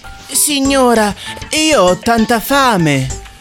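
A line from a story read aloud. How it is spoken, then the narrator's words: Pleading. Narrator (Italian): implorò Giacomino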